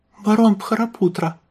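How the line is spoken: Squeaky voice. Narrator (Russian): пискнула Верба

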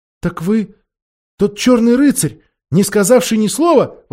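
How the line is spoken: Exclaim. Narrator (Russian): воскликнула Джил

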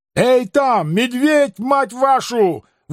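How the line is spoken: Frightened, furious yell. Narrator (Russian): в испуге и ярости завопил я

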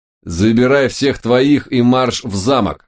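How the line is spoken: Order through gritted teeth. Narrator (Russian): сквозь зубы приказал я Хельге

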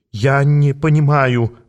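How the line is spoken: Forced out, stammering. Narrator (Russian): выдавил Фрумпель, заикаясь

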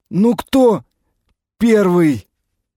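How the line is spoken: Strained, forced out. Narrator (Russian): выдавил из себя Гаррис

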